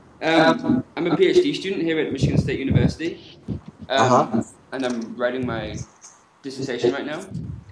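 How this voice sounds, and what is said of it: British accent. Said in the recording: “I've got a similar accent to you ... glad to have another British person here”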